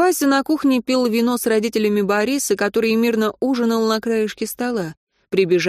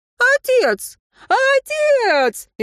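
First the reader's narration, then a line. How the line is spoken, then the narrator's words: Frantic screaming. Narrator (Russian): истошно завопила она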